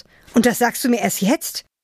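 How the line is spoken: Angry. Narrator (German): Wütend

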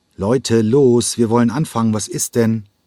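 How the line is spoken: Impatient call. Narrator (German): rief er ungeduldig

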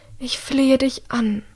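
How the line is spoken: Breathy pleading. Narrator (German): haucht ihre Mutter

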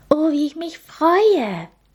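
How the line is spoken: Very excited. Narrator (German): meinte Linny ganz aufgeregt, da sie schon so viel von den Menschen gehört, aber noch nie einen gesehen hatte

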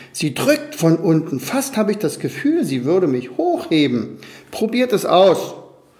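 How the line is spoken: Laughing eagle. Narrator (German): lachte der Adler

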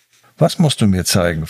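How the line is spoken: Calm but uneasy question. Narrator (German): fragte Elias, seine Stimme ruhig, aber von einer inneren Unruhe begleitet

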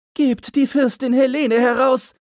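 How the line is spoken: Shouting. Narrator (German): schrie sie

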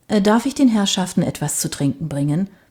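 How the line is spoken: Plain. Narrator (German): fragte der Kellner

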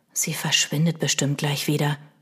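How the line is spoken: Whispered. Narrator (German): flüsterte Milo

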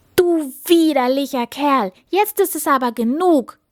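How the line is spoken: Angry shout. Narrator (German): rief die Prinzessin zornig

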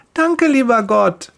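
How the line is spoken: Cheerful call. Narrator (German): ruft sie fröhlich

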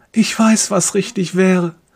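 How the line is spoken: Silent pleading. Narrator (German): fleht er stumm

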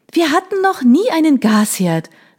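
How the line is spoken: Called out. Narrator (German): rief ich

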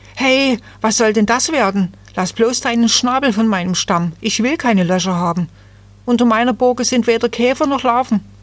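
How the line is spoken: Frightened cry. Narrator (German): voller Angst rief

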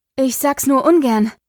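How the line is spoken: Panting. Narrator (German): keuchte Pandora, als sie Espen erreicht hatte

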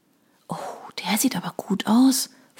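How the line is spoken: Whispering. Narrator (German): flüsterte Eileen

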